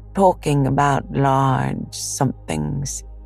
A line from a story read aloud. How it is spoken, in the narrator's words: he went on dreamily